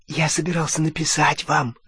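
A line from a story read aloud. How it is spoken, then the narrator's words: Whisper. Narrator (Russian): зашептал он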